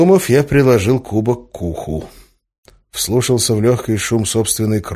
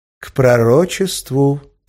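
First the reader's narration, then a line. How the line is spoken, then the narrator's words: Correcting. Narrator (Russian): поправил Эразм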